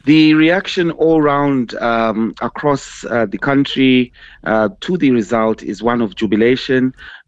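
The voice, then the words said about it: Slightly hoarse voice. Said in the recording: “As you can probably hear, my voice is slightly hoarse”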